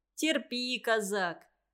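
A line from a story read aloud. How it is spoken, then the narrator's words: Good-natured loud laughter. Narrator (Russian): добродушно хохотал Девяткин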